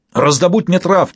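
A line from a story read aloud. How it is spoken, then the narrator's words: Sudden yell. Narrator (Russian): заорал он внезапно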